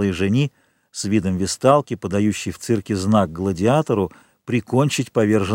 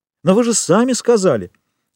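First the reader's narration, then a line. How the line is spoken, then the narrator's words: Exclaimed. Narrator (Russian): воскликнула Эжени Данглар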